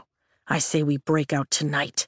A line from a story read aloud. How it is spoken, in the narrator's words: Riddick whispers